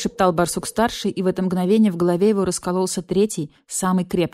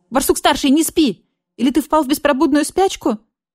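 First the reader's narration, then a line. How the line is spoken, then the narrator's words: Panicked yell. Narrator (Russian): в панике заорал барсукот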